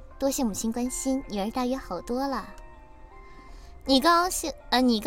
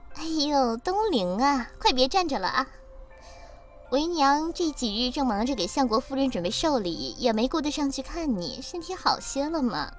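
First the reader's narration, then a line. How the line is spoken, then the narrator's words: Beaming, cheerful. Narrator (Chinese): 对你眉开眼笑道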